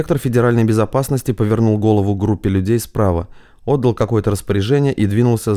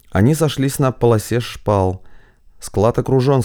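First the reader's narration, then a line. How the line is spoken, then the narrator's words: Cold. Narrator (Russian): сказал холодно Коваль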